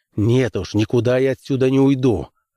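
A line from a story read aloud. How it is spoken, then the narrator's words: Snapping, irritated. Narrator (Russian): огрызнулся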